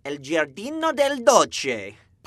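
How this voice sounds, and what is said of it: Exaggerated overpronounced Italian, imitating another person. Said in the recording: “Elliot likes to overpronounce ethnic restaurant names ... This is my impression of Elliot Bambra during his stand-up ... He finds the most stereotypical version of that ethnicity and then just goes to town”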